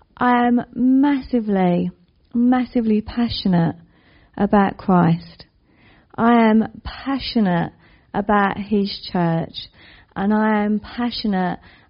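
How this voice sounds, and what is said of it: East London accent. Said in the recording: “you can guess by my accent, or maybe you can't, that I'm from the East End of London. People normally say Essex... I married an Essex man, hence my hybrid accent”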